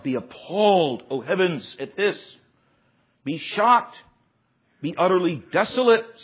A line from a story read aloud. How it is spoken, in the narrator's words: says the Lord